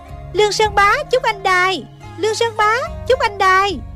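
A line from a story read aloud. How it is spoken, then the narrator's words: Cried out. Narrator (Vietnamese): Thích Phương kêu lên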